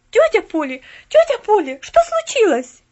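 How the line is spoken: Girl shouting. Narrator (Russian): закричала девочка

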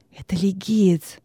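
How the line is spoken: Whisper. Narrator (Russian): шепнул Венеций

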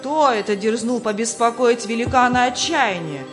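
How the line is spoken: Shout. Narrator (Russian): крикнул хозяин замка

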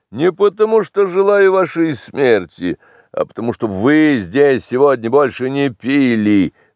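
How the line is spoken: Gloomy, weighty. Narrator (Russian): проговорил мрачно и веско

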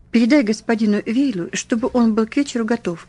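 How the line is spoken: Plain. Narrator (Russian): сказал Кик

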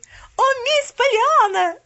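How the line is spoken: Screaming. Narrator (Russian): завопила она

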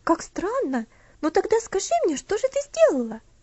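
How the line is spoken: Curious exclamation. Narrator (Russian): Опять воскликнула Луси, не скрывая любопытства

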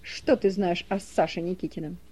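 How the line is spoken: Sharp question. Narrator (Russian): Соки резко спросил

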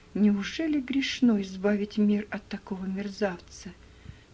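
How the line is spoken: Whisper. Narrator (Russian): прошептала она

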